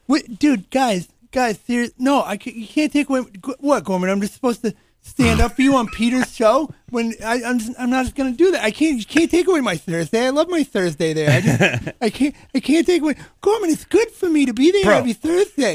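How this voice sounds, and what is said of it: Imitates another person's voice. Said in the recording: “You want to hear my Gonzo impression?”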